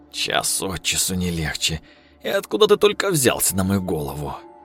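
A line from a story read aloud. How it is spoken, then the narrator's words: Grumbling host. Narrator (Russian): проворчал хозяин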